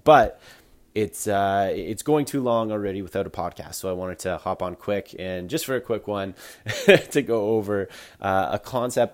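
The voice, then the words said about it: Sick, under-the-weather voice. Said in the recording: “as you can probably hear in my voice right now, I've been a little under the weather ... haven't been feeling totally 100%”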